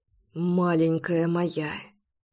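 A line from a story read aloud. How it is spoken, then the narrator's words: Murmuring. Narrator (Russian): бормотал он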